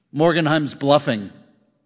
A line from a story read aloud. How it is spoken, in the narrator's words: said Ebling